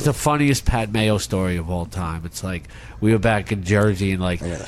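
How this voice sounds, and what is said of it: Usual voice. Nothing is said of it.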